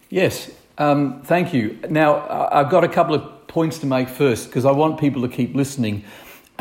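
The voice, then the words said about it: Non-local accent, not Northumbrian. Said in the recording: “your accent would suggest you've not always lived in Northumberland ... what brought you to the other side of the world”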